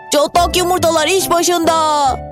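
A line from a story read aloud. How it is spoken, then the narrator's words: Shouting. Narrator (Turkish): diye bağırdı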